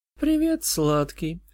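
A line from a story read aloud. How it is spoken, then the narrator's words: Affectionate, tender. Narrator (Russian): ласково проговорила она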